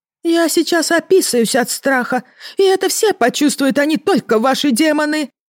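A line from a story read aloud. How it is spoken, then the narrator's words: Spontaneous wail. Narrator (Russian): взвыла непосредственная Ермина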